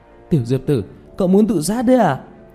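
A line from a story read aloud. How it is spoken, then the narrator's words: Urgent shout. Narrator (Vietnamese): Tiểu Mã không rõ Diệp Thiếu Dương đang làm gì, liền khẩn trương hét lên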